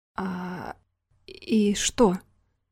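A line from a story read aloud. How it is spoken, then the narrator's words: Halting, at a loss for words. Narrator (Russian): только и смог выдавить Рома, отчего-то забыв добрую половину словарного запаса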